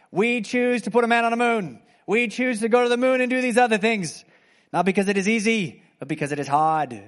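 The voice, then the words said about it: JFK impersonation. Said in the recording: “my JFK impersonation”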